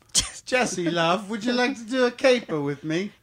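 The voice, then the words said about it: Put-on accent. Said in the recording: “Not if you're going to do that accent. ... It's a dead giveaway.”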